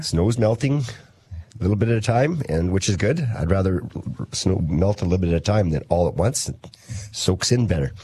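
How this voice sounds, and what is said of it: Slightly hoarse voice. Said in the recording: “my voice is a little bit hoarse today. I've been talking too much all weekend”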